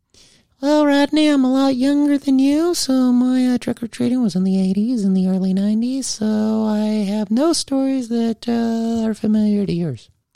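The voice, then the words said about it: Impersonation of a woman's voice. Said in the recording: “I don't do a lot of impersonations, but I'm going to pretend like I'm asking Bobby a question ... that is not what she sounds”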